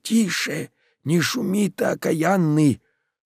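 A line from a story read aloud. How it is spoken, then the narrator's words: Threatening angry hissed whisper. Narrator (Russian): С угрозой зашептала она, она прошипела злобно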